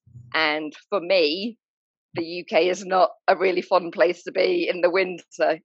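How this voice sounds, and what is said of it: British accent. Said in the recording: “I'm British, as you can tell from my accent.”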